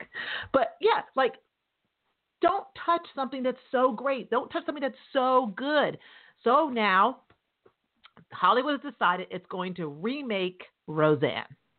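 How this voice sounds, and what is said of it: New York accent. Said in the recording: “my accent. I'm a New Yorker.”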